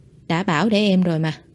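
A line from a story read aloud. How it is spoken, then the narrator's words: Soft reproach. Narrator (Vietnamese): Ngụy Chi Viễn khẽ trách một câu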